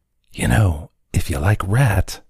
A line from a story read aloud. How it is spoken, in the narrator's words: Juan whispered